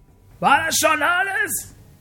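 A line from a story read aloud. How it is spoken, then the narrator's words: Shouting. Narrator (German): schreit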